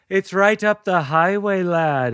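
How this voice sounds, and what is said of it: Put-on Irish accent. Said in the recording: “Irish accents are contagious”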